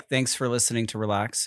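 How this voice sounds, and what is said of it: Attempted American accent. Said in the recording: “Could you do an American accent? ... That's pretty good.”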